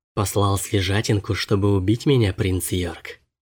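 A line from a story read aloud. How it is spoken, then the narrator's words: Plain. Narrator (Russian): сказала она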